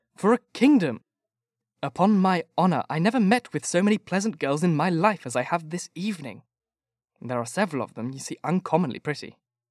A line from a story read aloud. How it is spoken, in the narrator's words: cried Bingley